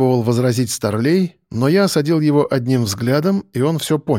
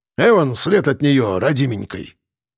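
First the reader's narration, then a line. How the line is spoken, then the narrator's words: Wailing lament. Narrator (Russian): причитал бородач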